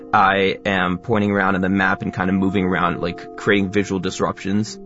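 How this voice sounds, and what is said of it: Fast, educational influencer-style delivery. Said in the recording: “I am talking quickly using my educational influencer accent.”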